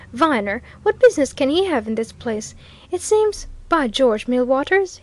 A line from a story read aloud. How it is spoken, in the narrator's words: he suddenly exclaimed